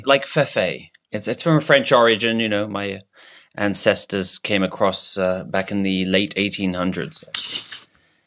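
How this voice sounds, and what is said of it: Put-on French accent. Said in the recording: “this accent, because of my French heritage”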